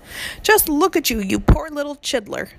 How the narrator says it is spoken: cried the BFG

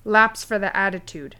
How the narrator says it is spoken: Kaisenhart snapped

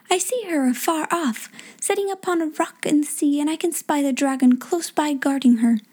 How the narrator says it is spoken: said the stargazer, cried out

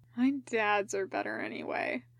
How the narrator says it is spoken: Genma mumbled, eyes slipping closed

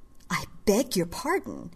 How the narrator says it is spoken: gasped

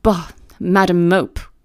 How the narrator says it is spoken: cried the voice of John Reed

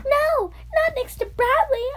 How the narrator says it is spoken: a girl in the front row exclaimed

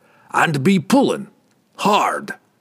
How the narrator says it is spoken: the dwarf roared

